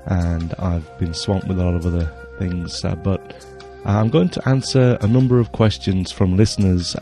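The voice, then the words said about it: Voice with a cold. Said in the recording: “I've got a bit of a cold”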